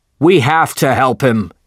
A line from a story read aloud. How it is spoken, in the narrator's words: said one whaler loudly